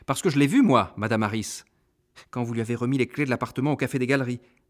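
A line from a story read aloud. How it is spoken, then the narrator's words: Brisk, quick. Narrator (French): précisai-je vivement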